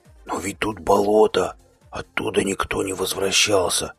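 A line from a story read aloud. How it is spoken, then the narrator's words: Whisper. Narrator (Russian): прошептал Сева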